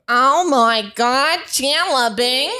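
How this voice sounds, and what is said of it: Impression of Janice from Friends. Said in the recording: “great impression ... That's Janet ... Janice”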